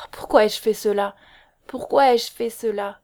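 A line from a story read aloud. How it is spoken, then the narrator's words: Moaning. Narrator (French): gémit-elle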